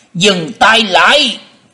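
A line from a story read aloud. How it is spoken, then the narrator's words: Booming shout from above. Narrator (Vietnamese): từ trên không có tiếng quát lên lòng lộng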